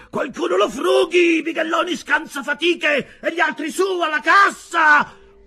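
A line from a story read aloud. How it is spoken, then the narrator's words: Shrieking. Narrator (Italian): strillava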